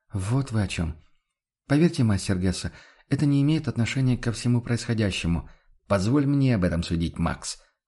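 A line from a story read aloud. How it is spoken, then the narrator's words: Objecting. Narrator (Russian): возразил он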